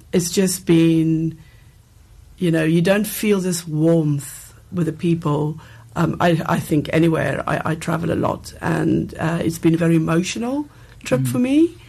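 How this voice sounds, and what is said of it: Emotional, choked-up voice. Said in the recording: “You can hear even in my voice now I'm getting emotional.”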